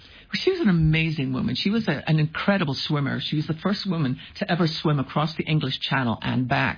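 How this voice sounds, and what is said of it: Speaks with a noticeable accent. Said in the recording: “you got that great accent”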